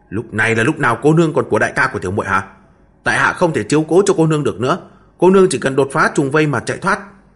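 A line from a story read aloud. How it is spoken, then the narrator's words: Irritated snap. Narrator (Vietnamese): Hồ Phỉ gắt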